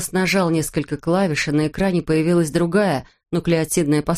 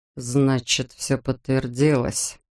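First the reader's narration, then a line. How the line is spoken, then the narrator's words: Mutter. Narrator (Russian): пробормотал он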